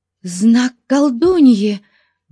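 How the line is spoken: Exclaimed. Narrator (Russian): воскликнула Тамарис

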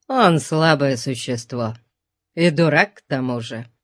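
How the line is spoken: Grumbling. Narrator (Russian): проворчал он

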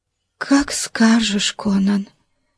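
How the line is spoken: Soft whisper. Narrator (Russian): тихо шепнула она

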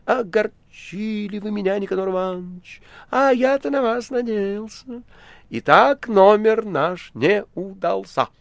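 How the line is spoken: Reproachful and sad. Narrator (Russian): артист добавил укоризненно и печально

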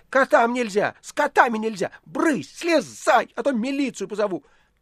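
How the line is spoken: Furious, trembling shout. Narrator (Russian): со злобой, от которой даже тряслась, закричал

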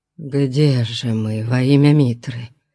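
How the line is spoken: Weak moan. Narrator (Russian): слабо застонал Мурило

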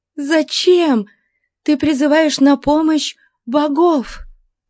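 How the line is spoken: Exclamation. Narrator (Russian): воскликнула она

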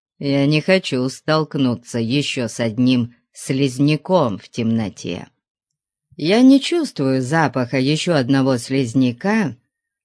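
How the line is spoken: Plain. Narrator (Russian): сказал Конан

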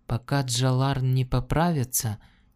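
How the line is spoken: Plain question. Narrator (Russian): спросила Лианна

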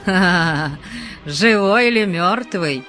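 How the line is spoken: Laughing. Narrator (Russian): смеясь сказал Пелиас

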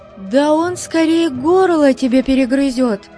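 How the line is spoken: Trusting, fervent exclamation. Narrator (Russian): воскликнула Натала, безгранично верившая своему возлюбленному

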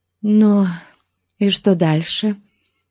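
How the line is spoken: Trembling question. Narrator (Russian): дрожащим голосом спросила она

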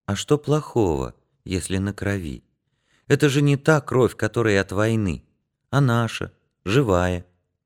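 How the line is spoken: Affectionate. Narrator (Russian): Янка ласково сказал

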